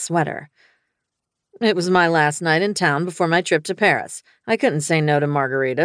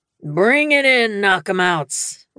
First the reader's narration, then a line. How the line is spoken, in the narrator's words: Wraith bellowed